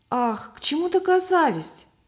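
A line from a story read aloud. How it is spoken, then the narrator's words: Exclamation. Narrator (Russian): воскликнула Любовь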